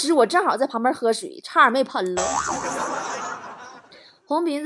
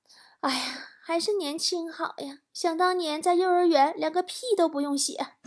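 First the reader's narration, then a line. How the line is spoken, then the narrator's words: Children sighing wistfully. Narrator (Chinese): 这俩小孩就搁那感叹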